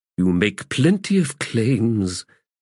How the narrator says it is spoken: he said wearily

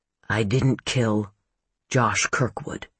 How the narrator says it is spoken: Garrett Wright said softly

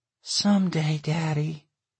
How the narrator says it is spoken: she sighed

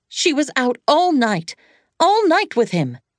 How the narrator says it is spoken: Janice suddenly cried out at him

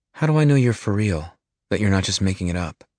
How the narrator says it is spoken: The man sighs

